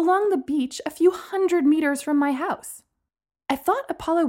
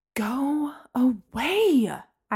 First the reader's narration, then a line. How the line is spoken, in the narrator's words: I hissed